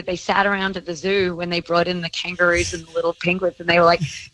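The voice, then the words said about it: Australian accent. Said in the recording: “my accent, you know, as we've discussed, makes me kind of like, it's like a superpower ... does anyone know an Australian?”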